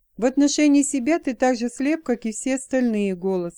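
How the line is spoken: Plain. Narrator (Russian): сказала Джейн

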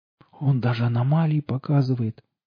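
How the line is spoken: Incautious exclamation. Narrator (Russian): воскликнул он, совсем забыв об осторожности

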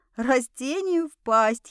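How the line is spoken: Quiet inward giggle. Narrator (Russian): хихикнула про себя

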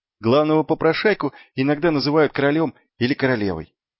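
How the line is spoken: Plain. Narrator (Russian): ответил Маркоу

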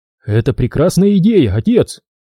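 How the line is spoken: Joyful. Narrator (Russian): радостно сказал Лиет

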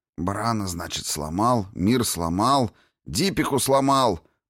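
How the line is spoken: Anxious grumbling. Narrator (Russian): проворчал Кин с оттенком тревоги

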